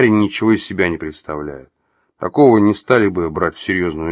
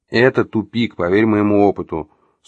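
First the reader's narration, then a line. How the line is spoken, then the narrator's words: Calm reply. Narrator (Russian): спокойно ответил собеседник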